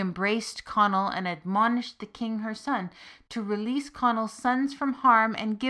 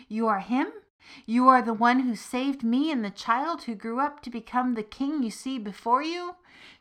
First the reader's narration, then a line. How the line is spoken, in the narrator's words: the king's mother cried